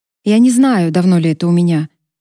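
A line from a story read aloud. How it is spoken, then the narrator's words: Calm voice. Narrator (Russian): сказала спокойным голосом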